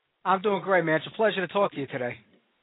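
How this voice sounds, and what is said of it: New York accent. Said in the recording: “I love the New York accent you got going on there.”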